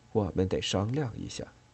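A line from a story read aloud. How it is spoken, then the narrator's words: Whispering. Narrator (Chinese): 他悄声说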